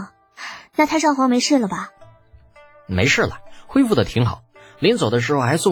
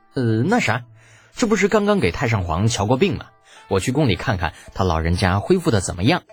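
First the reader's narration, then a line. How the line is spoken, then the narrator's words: Hasty nervous deflection. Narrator (Chinese): 李浩总觉得那笑容里啊，包含着一丝杀气，于是连忙岔开话题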